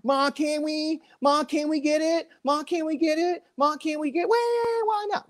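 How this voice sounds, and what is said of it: Impression of a whiny, nagging kid. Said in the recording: “That annoying kid that goes ... You just lost all of our viewers your impression”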